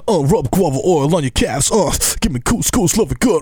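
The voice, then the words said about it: Imitates another person's voice. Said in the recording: “my LL Cool J impression”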